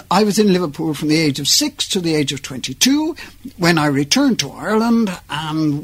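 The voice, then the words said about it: Slight Liverpool accent. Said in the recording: “slight, dare I say it, slight Liverpool accent”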